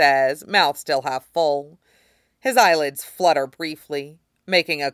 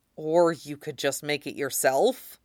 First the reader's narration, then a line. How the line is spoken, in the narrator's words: Val says through clenched teeth